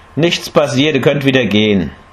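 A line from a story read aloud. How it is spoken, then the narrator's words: Laughing call. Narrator (German): rief lachend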